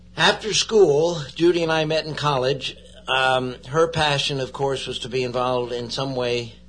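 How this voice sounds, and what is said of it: Yankee (Connecticut) accent. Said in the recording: “I should have recognized that Yankee accent. ... they say it still comes out once in a while.”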